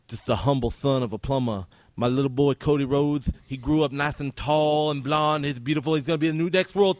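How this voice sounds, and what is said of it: Imitates another person's voice. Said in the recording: “But my favorite is the American Dream, Dusty Rhodes, baby.”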